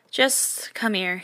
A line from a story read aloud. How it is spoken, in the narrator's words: he groans